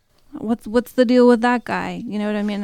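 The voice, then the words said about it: Put-on New Jersey accent. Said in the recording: “a good New Jersey accent”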